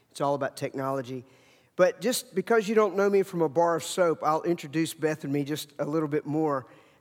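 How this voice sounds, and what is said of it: Virginia mountain accent. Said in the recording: “I have an accent because we're from the mountains of Virginia”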